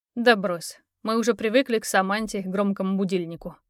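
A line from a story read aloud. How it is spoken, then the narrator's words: Snorting friend. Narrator (Russian): хмыкнул друг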